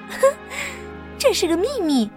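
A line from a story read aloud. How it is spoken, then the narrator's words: Giggling. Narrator (Chinese): 艾洛咯咯的笑着说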